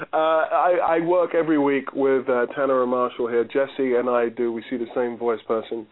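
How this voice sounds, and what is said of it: London English accent. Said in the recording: “you're from London, and you have this great London accent”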